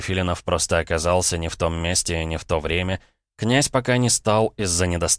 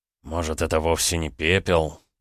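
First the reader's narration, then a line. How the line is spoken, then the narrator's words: Heavy sigh. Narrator (Russian): тяжело вздохнул Захар Андреевич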